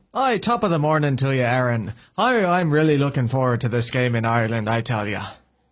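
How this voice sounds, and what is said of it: Put-on Irish accent. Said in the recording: “work on the Irish accent... I felt like I was in a Lucky Charms commercial”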